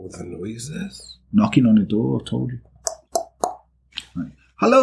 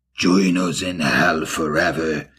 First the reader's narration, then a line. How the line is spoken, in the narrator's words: it rasped over and over again